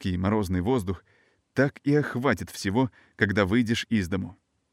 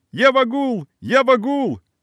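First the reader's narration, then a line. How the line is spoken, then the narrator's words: Joyful shouting. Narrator (Russian): кричал я, подпрыгивая от радости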